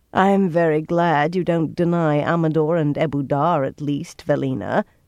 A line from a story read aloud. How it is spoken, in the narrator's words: Siobhan said dryly, and she could be very dry indeed